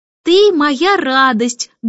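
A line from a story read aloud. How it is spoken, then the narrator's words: Loud reading. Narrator (Russian): громко прочла Джейн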